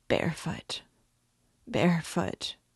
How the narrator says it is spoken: he muttered

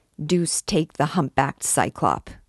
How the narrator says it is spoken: he muttered

